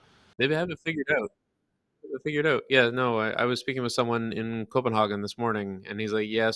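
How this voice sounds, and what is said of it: Usual voice. Nothing is said of it.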